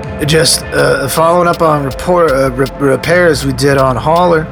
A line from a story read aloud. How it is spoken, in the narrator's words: Aris said, hating how his voice slurred and cracked at the same time